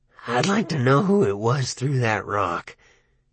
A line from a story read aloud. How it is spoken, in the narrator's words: he said softly